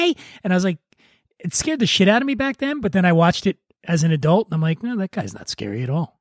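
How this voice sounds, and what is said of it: Usual voice. Nothing is said of it.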